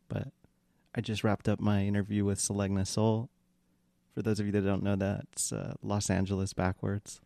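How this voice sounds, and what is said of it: Quiet, hushed late-night voice. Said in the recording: “I'm in my late night voice because the baby's sleeping”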